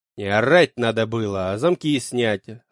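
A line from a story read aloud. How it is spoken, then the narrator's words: Snarling. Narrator (Russian): рыкнул на них я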